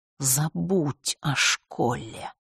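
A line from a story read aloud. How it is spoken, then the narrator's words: Hiss. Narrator (Russian): прошипела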